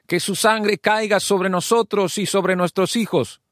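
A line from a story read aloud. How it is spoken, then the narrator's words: Crowd shouting. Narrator (Spanish): el pueblo empezó a gritar diciendo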